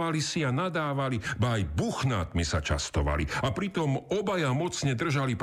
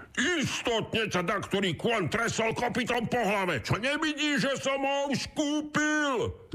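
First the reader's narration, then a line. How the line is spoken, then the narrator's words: Shouted. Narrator (Slovak): zakričal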